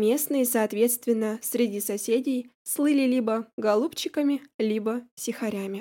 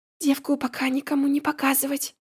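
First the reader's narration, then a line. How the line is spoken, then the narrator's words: Whispered command. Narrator (Russian): велела шепотом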